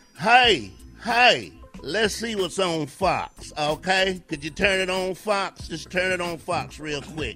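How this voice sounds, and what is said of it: Put-on Southern US accent. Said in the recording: “I will do this in my southern voice”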